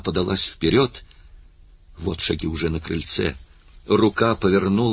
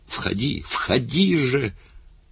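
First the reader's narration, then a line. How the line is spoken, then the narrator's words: Exclaimed. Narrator (Russian): Заговорить, воскликнуть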